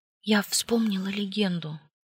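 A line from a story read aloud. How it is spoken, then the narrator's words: Silent mouthed whisper. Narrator (Russian): одними губами прошептала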